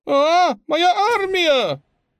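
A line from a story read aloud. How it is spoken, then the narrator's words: Howl. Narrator (Russian): Их незадачливый предводитель взвыл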